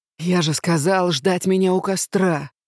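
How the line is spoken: Deep dragon growl. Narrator (Russian): прорычал дракон, отчего по спине и плечам прошла вибрация

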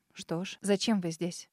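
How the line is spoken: Sharp, unawed question. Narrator (Russian): резко спросила я, не испытывая никакого трепета

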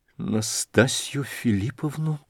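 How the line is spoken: Mumble. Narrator (Russian): пробормотал князь

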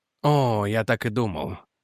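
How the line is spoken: Muttered. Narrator (Russian): пробормотал Реджи

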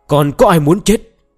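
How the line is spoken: Loud menacing shout. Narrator (Vietnamese): quát lớn

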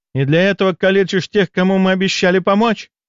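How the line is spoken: Angry cry. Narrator (Russian): В гневе вскрикнула женщина

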